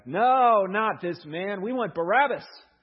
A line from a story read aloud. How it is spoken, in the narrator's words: they shouted back